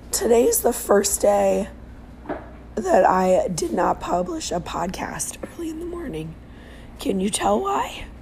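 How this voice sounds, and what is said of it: Sick, nearly lost voice. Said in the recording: “I'd like to say it's because I lost my voice ... I'm sick ... even though I sound ridiculous”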